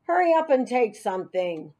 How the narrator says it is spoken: Marty said in a gruff voice

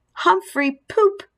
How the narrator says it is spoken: he yelled

